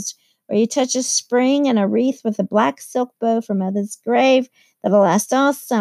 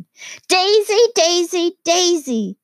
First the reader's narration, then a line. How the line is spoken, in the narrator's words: shouted Mrs